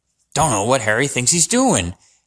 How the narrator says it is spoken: Hagrid mumbled

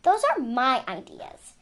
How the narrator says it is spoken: she said crossly

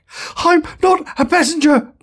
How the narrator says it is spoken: panted Zaphod

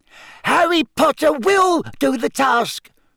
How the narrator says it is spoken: squeaked the elf

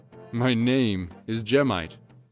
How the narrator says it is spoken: the first Goron boomed

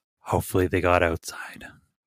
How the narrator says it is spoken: Plato says very gravely

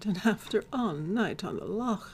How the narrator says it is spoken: sighed

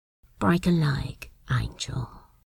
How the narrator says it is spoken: he murmured

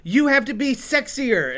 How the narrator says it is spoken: shout things like

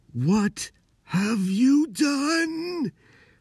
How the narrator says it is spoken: the wizard repeated, his voice screeching

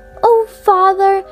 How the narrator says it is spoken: cried

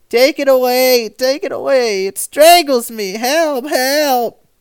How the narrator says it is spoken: uttering horrible screams

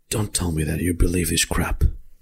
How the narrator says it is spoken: Hest, he's just putting his mouth close to your ear and he whispers

